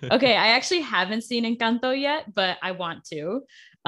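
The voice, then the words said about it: Noticeable regional accent. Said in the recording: “The accent comes out sometimes.”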